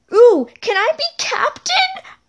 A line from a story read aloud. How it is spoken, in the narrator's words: one of the girls yell